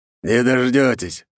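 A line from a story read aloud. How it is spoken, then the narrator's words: Smirking. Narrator (Russian): хмыкнул Долгоруков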